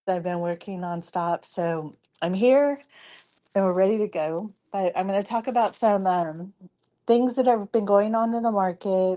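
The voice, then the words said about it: Hoarse, fading voice. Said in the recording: “as you can tell, I'm losing my voice.”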